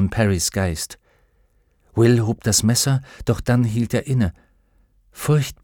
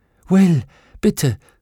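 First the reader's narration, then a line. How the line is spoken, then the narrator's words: Gasping. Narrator (German): keuchte Lyra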